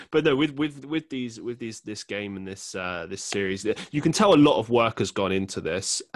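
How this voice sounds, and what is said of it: London accent. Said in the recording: “It sounds better with your accent than with mine. You know, I'm from New York. You're from London. Who's got the cooler accent?”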